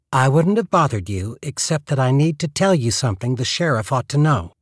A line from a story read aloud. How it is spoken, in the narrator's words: In a crisp voice, said